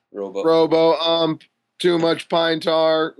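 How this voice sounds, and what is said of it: Robot voice impression. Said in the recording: “My robo impression. ... that was a really convincing robot.”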